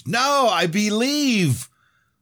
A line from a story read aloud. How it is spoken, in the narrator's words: James screamed